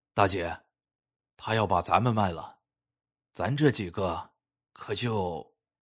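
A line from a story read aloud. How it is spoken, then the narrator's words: Mumbling thug. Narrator (Chinese): 面目凶狠的马仔阿奇走到他身边，嘟囔道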